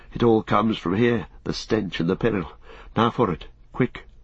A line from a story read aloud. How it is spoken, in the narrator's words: he said in a hoarse breath without voice